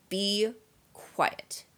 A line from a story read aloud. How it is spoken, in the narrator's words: said Snape coldly